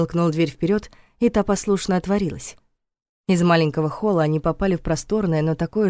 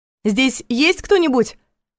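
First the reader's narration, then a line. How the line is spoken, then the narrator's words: Loud question. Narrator (Russian): громко спросила Саша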